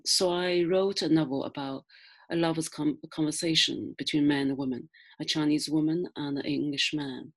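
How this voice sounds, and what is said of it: Non-native English accent. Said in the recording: “you can tell my accent, my strange grammar”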